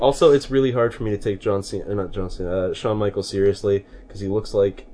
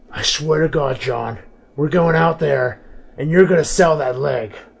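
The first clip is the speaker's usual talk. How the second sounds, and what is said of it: Imitates another person's voice. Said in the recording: “that's my best HBK impersonation ... You like that HBK? It's not too bad.”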